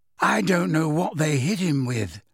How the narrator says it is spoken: said Luna sadly

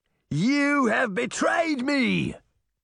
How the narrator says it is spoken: Nottingham shouted at her

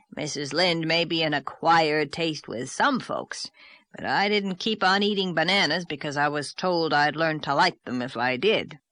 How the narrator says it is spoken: growled Mr

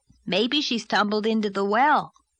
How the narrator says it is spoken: suggested Davy cheerfully

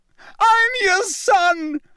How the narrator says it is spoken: he screamed up at Crouch

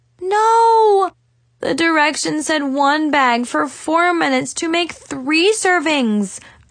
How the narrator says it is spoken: groaned

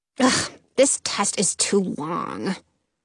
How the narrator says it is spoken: the girl sitting next to Belly's empty seat mutters

